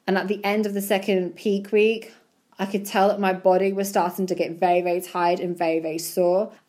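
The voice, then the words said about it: Slightly croaky voice. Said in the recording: “You could probably hear in my voice that my voice is a little bit croaky.”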